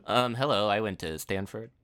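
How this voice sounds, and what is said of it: Impression of a TV comedy writer. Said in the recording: “my impression of a Simpsons writer”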